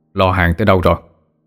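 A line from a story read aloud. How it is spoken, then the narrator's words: Deep gruff male voice. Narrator (Vietnamese): có giọng đàn ông ồm ồm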